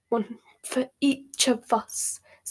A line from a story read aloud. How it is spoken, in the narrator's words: said Hermione in a terrifying whisper